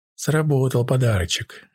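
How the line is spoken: Sad sigh. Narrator (Russian): грустно вздохнула Миранда

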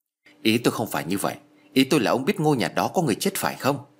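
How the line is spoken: Frowning, irritated snap. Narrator (Vietnamese): Hồng cau mặt gắt

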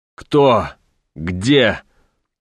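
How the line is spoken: Alarmed hoarse wheeze. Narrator (Russian): Услышав про покойника, захрипел командор

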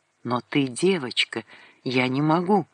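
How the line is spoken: Whisper. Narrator (Russian): Сандрик прошептал

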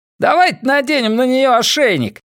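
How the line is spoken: Shouting. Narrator (Russian): крикнул ещё один из грошовых львов

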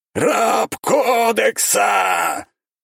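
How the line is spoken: Sudden roar. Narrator (Russian): внезапно проревел чувак в черном

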